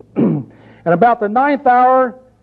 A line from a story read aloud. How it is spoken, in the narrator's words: Jesus cried with a loud voice, saying